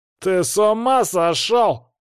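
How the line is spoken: Yelling. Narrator (Russian): завопил тот

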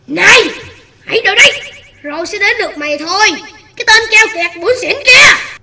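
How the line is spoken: Growling. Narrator (Vietnamese): Cá sấu gầm gừ

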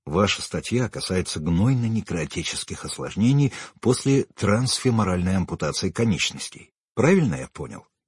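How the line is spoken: Plain. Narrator (Russian): сказал я

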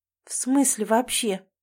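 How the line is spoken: Mumble. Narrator (Russian): бормочет

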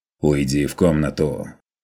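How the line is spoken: Stern demand. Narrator (Russian): Потребовал он строго

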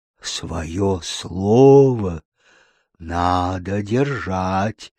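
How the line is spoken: Breathed out. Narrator (Russian): выдохнул Глинкомок

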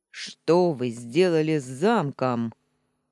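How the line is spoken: Menacing. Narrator (Russian): грозно повторил он

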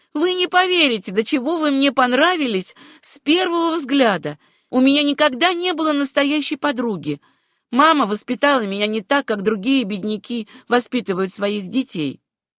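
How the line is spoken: Excited flushed exclamation. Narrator (Russian): Этта с пылающим лицом и глазами воскликнула

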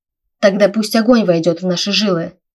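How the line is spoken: Fierce exclamation. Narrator (Russian): воскликнула Эрика, сжав кулаки

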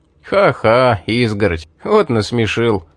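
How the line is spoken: Laughing. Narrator (Russian): засмеялся Рэй

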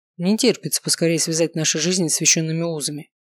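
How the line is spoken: Snorting. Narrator (Russian): хмыкнул Варгас

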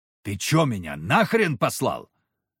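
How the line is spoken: Very loud bark. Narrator (Russian): Рявкнул так, что вся работа в конторе остановилась

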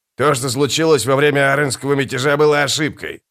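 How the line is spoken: Snapping retort. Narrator (Russian): огрызнулся скрипач

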